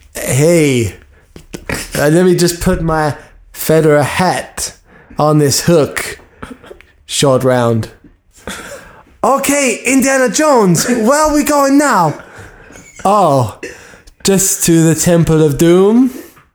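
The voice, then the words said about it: Film dialogue acted in different accents. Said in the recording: “Three accents”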